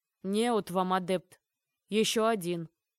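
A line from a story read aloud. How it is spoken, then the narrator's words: Grumble. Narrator (Russian): проворчал Аргашас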